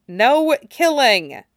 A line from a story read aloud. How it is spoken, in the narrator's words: Tim replied firmly